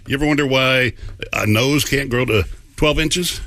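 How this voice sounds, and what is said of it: Sexy deep male voice. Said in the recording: “Sexy man with a deep voice.”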